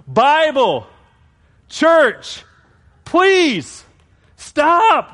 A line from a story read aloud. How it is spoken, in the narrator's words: shouted the man